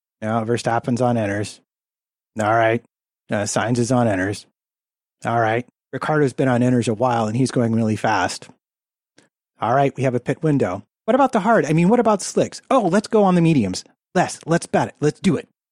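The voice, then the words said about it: Impression of team radio conversation. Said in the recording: “on the radio, this is literally my best impression.”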